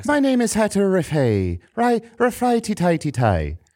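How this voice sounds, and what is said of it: Put-on Irish accent. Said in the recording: “Do an Irish accent.”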